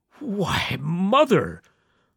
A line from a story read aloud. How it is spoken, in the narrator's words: the old man gasped